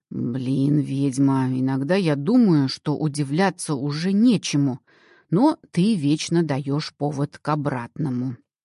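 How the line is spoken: Grumbling mutter. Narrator (Russian): пробурчал он

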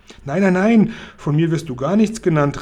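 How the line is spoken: Calling out. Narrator (German): rief Sophiechen

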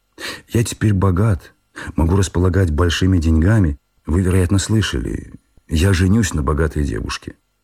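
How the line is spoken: Timid, guilty. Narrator (Russian): Пенегин робко, словно виновный, проговорил

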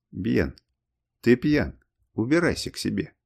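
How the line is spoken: Extremely calm. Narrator (Russian): ответил он предельно спокойно

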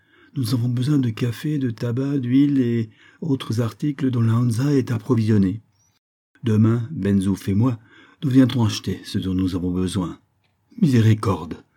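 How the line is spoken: Exclaimed. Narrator (French): s'écria Isaac, auquel cette exclamation échappait toujours

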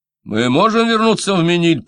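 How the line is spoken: Shout. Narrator (Russian): прокричал Фомье

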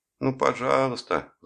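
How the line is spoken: Pleading. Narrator (Russian): взмолилась Эстер

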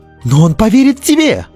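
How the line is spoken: Exclaimed. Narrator (Russian): воскликнул Лайм

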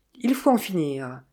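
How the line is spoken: Plain. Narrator (French): dit-il

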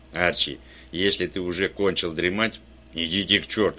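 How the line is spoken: Plain. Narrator (Russian): ответил я

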